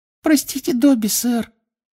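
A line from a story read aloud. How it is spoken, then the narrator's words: Guilty squeak. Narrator (Russian): виновато пискнул эльф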